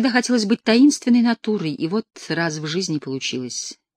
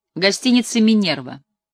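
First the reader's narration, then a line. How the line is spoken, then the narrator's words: Grumbling. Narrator (Russian): буркнула я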